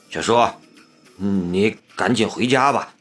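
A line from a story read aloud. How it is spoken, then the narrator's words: Trembling but resolute. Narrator (Chinese): 声音有些颤抖，却很是坚决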